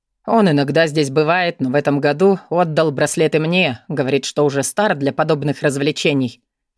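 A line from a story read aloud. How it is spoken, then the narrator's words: Amused snort. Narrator (Russian): хмыкнул некромант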